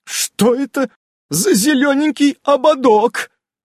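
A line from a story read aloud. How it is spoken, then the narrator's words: Accusing shriek. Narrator (Russian): обвиняюще завопила ведьма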